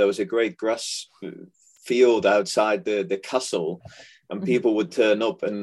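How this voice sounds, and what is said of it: Usual voice. Nothing is said of it.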